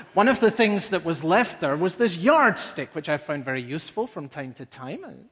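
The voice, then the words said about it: Foreign accent. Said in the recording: “becoming a citizen doesn't automatically change a person's accent.”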